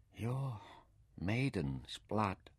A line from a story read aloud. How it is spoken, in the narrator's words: he whispered in awe